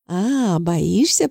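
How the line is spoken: Teasing drawl. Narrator (Russian): протянула я с поддевкой

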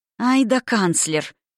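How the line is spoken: Contemptuous female hiss through teeth. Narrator (Russian): процедила она с великолепным презрением

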